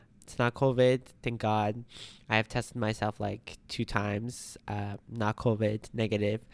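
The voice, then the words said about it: Congested, stuffy voice. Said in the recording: “My voice is a bit like congested... Maybe it's cold or it's the allergies”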